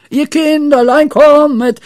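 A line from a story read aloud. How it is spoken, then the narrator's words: Shrieked. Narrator (German): schrie Pippi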